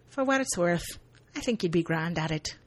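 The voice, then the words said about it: Bad put-on accent. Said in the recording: “Bad accents abound. ... this bad accent fest.”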